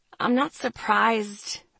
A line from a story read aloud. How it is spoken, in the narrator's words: I said, my voice hoarse